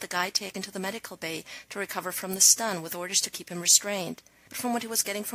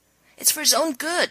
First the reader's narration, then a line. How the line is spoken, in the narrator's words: McKay yelled back